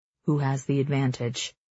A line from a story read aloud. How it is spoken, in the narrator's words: Instructor Arvid asks